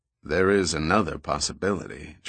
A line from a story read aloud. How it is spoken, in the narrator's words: Giordino added quietly